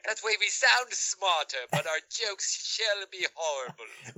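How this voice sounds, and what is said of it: Put-on British accent. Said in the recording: “we can do their accent ... And the rest of this episode is just going to be in a British accent.”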